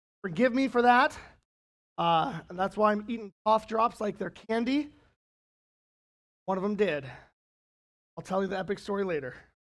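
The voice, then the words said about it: Raspy, strained voice. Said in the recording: “my soccer coaching got the better of me this weekend in my voice, so that's why I sound a little raspy”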